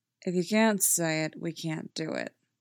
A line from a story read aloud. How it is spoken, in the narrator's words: Derek says flatly